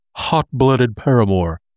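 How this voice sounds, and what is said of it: Weak Hank Hill impression. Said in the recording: “I can picture Hank Hill from King of the Hill saying it... I don't do a very good Hank impression.”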